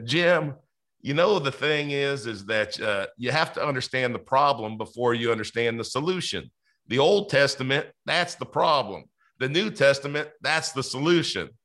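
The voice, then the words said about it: Imitated Southern accent. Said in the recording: “I'm going to butcher this. So all from my Southern audience, I apologize, but I got to try to do his accent just a little bit”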